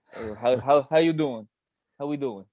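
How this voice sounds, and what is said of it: Italian American mobster voice. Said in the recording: “It's Tony Soprano. ... my Italian American accent.”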